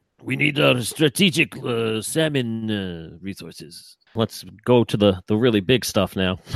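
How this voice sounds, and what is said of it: Usual voice. Nothing is said of it.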